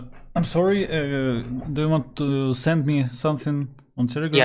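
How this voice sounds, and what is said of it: Usual voice. Nothing is said of it.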